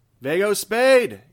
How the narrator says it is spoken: yelled Carr when the bullets stopped

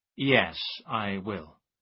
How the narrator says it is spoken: Ambrose answered slowly

